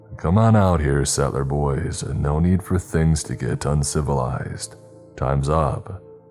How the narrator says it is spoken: Sheriff Goodwin said, in his confident and boastful sounding drawl

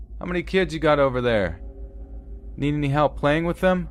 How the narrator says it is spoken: the driver got out and yelled

